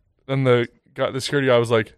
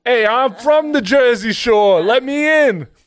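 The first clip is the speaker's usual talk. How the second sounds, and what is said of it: Put-on Jersey accent sounding British. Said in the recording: “Can you do a Jersey accent? ... You sounded British for a second.”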